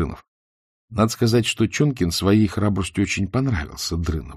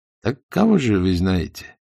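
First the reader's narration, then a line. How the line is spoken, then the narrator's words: Plain question. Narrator (Russian): спросил Сталин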